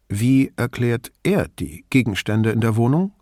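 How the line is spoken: Plain. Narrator (German): fragte Brunetti

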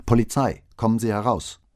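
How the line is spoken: Shouting. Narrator (German): rief

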